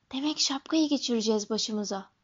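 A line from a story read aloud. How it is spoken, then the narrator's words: Whispering. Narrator (Turkish): diye fısıldadı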